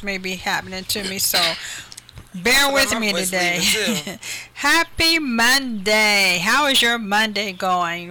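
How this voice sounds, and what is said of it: Hoarse voice cutting in and out. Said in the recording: “Boy, my voice failed me... My voice has been going in and out... Laryngitis”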